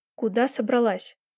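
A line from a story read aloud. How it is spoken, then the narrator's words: Firm question. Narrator (Russian): твердым голосом спросил я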